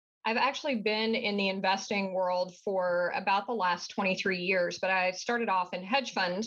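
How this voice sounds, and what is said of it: Southern US accent. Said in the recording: “my accent that I am from the southern part of the United States”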